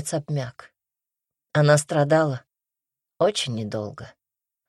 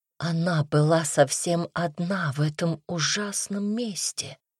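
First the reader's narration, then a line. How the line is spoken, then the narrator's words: Whisper. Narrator (Russian): прошептала Дарья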